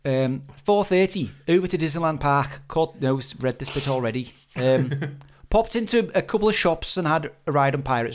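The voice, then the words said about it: Put-on Liverpool accent. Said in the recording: “with a Liverpoolian accent”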